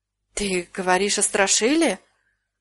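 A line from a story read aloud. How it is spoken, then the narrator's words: Deeply stunned mutter. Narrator (Russian): пробормотал пораженный до глубины души Гуд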